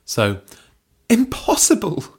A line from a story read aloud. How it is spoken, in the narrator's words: spluttered Belinda